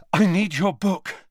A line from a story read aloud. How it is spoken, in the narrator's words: Harry panted